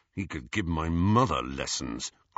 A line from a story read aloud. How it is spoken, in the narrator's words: growled Ron